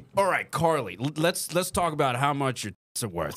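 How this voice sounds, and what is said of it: Put-on American accent. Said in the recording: “do an American accent. ... Just pretend you're me. Just act like you're me.”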